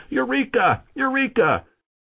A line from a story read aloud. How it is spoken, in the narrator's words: he got so excited he jumped out of the bathtub and went running out into the street yelling